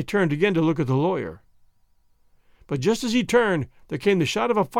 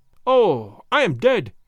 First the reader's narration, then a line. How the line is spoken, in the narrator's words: he cried, several times over